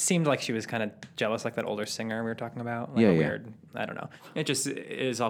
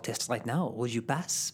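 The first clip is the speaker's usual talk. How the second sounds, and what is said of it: Put-on French accent. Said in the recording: “how serious you're taking this French accent ... Full audio or radio play right now”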